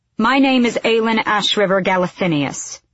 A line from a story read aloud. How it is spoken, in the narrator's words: she said